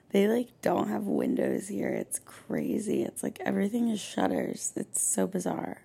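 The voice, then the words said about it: Hoarse, fading voice. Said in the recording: “I'm clearly losing my voice because of the salt water.”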